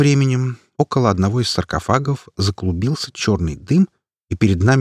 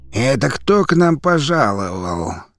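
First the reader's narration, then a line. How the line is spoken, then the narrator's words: Creaky-voiced question. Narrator (Russian): скрипучим голосом поинтересовался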